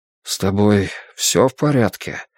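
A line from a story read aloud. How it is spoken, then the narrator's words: Soft question. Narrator (Russian): мягко спросил он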